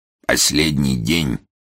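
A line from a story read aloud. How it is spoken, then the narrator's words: Stern. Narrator (Russian): строго сказал долгоруковский серый кардинал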